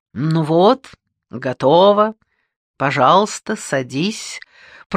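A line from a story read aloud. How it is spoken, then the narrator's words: Gallant, broadly smiling. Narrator (Russian): произнес он галантным тоном, но с улыбкой от уха и до уха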